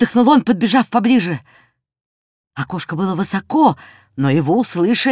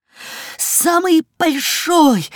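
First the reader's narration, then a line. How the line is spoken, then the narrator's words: Breathless excited shout. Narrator (Russian): захлебываясь от волнения, крикнул Жорик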